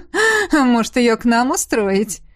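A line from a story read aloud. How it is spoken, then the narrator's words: Laughing question. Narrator (Russian): Все еще сквозь смех спросил остроухий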